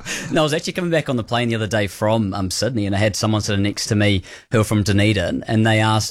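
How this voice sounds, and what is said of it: Kiwi accent with Australian-sounding twang. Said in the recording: “is there a twang there? Are you an Aussie?”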